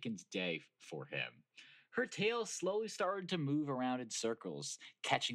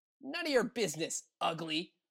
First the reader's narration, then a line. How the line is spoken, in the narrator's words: she snapped